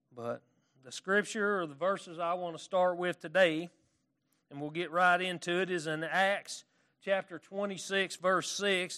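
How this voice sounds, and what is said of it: Arkansas Southern accent. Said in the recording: “my Arkansas accent ... I acquired this accent because I moved to Paris, Arkansas”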